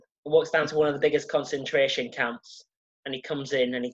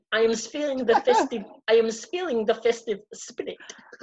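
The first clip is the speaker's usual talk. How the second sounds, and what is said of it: Put-on German accent. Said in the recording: “am I going to attempt a German accent here?”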